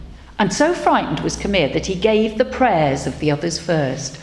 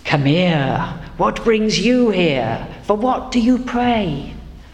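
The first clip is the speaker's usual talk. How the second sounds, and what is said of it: Wise, God-like character voice. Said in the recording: “I can't do the voice of God, really. I'll just do my best. I'll do that wise voice.”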